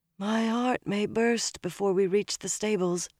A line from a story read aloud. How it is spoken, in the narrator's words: Elaine murmured